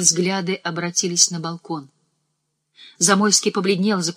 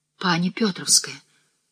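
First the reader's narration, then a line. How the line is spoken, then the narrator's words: Whisper. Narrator (Russian): шепнул Осипович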